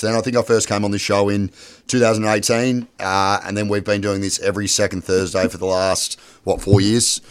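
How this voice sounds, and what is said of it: Croaky, hoarse voice. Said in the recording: “I lost my voice, so apologies if I sound a little bit croaky”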